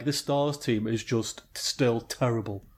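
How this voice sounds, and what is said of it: Imitates another person's voice. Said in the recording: “that was a terrible impression”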